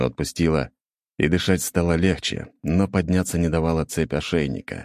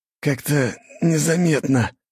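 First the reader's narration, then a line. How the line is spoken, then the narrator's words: Hoarse rasp. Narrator (Russian): прохрипел Керс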